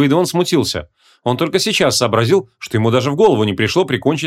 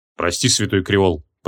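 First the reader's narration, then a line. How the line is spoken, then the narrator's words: Muttered. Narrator (Russian): пробормотал он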